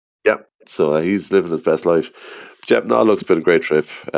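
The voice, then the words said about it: Very tired, strained voice. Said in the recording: “As you can probably tell from my voice as well, I'm very, very tired and I'm struggling.”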